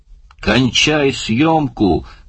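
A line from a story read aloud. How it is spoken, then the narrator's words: Shouted. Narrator (Russian): крикнул Барни оператору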